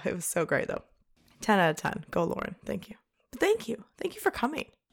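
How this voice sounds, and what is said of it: Strained hoarse voice. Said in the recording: “my voice is still stressed because I was screaming Mr. Brightside on the dance floor”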